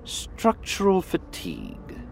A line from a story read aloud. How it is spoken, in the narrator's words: she murmured to Mosul